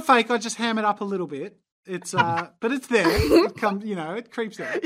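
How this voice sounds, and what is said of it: Australian accent. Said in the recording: “you're like pulling on this fake Australian accent ... I reckon you've got a pretty decent accent, but like it was not nearly as strong as you were putting it up”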